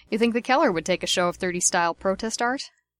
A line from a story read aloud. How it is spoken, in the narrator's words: he asked